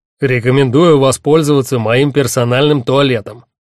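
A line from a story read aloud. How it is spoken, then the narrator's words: Irritated bark. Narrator (Russian): рявкнул ван Седельрик с раздражением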